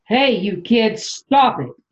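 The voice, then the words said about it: Stern scolding mom voice. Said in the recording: “I use my mom voice ... my mom voice”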